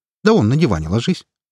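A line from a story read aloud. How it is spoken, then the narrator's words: Snorted. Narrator (Russian): хмыкнул Макс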